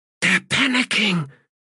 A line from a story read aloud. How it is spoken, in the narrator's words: hissed Stalock